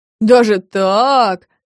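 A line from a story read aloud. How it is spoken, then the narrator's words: Drawled. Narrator (Russian): протянул Саша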